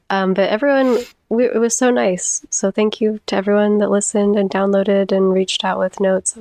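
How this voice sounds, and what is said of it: Slightly sick-sounding voice. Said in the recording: “I'm a little bit sick, so you're probably going to hear it in my voice”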